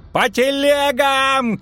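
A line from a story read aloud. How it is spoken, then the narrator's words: Shout. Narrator (Russian): крикнул Казаед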